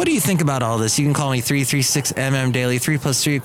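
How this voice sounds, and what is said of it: Usual voice. Nothing is said of it.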